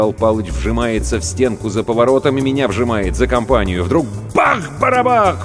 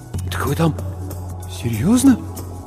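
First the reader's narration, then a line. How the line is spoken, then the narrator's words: Trembling mumble. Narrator (Russian): Бормочу, а у самого губы дрожат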